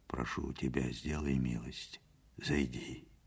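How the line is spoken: Quiet, close to the ear. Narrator (Russian): сказал тихо, наклоняясь к уху

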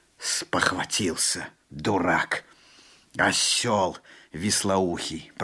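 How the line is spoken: Through gritted teeth. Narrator (Russian): проговорил Алан-Бий сквозь зубы

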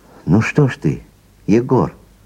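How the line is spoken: Exclaimed. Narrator (Russian): воскликнул друг Кондрат

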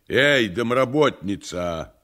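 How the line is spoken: Shouted. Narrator (Russian): прокричал Никанор Иванович в полутемной передней

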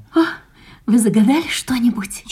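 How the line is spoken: Barely audible question. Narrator (Russian): чуть слышно спросила она

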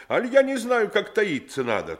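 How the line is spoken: Fervent exclamation. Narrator (Russian): Я с горячим порывом воскликнул

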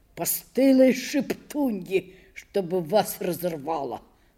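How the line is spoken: Muttering. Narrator (Russian): бормотал он

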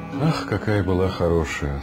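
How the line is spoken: Sad speech. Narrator (Russian): сказала мамаша, печально

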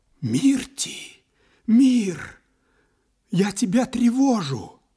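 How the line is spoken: Whispered. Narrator (Russian): Ахилла прошептал

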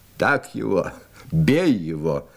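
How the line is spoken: Guffawing fighters. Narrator (Russian): хохотали бойцы

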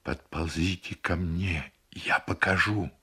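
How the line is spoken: Whisper. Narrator (Russian): на корме снова шепот

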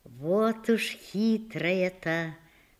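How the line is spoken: Muttering with a smile. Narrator (Russian): бормочет и улыбается

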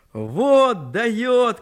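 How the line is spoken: Shouting in ear, laughing. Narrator (Russian): крикнул он ей в ухо и засмеялся

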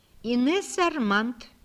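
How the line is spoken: Calm answer. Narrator (Russian): спокойно отвечала Инесса маленькая

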